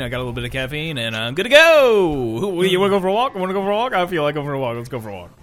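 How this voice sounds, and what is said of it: Very loud, hyped-up speech. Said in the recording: “my voice is so fucking loud. ... I gotta tone it down a little bit.”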